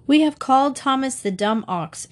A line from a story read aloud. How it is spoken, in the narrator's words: exclaimed St